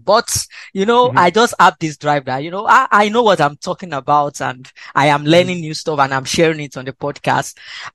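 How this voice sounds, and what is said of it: Non-native English accent. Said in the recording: “my accent is still a little bit much audible now ... English is not our first language”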